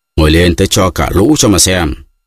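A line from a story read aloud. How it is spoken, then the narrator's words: Shout. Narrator (Vietnamese): Mikulka lại quát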